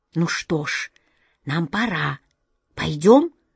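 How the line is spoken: Wizard's whisper. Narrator (Russian): шепнул волшебник Алеша коту Ваське

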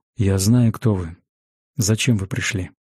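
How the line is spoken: Icy voice. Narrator (Russian): Ледяным голосом осведомился Ангус

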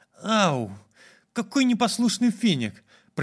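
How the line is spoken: Young woman, plain. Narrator (Russian): произнесла девушка

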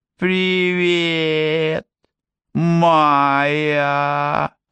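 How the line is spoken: Mocking imitation. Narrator (Russian): передразнил его Закариас

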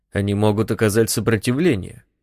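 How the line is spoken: Calm. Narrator (Russian): спокойно заметил Нельсон

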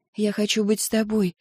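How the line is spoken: Whisper. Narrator (Russian): прошептала София

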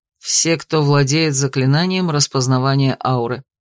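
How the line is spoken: Plain. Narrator (Russian): ответил Эйнар

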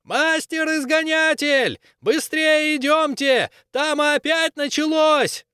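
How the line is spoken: Yelling from afar. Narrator (Russian): заорал издалека

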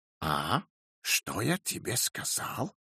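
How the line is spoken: Triumphant whisper. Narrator (Russian): торжествующе прошептал он племяннице

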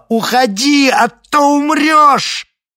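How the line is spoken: Shouted. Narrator (Russian): закричала

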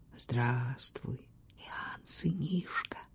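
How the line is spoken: Quiet. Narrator (Russian): тихо произнес он

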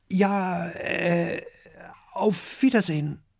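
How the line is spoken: Stutter. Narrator (German): stottert Kokosnuss

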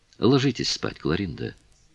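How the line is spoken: Tender. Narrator (Russian): нежно сказал он

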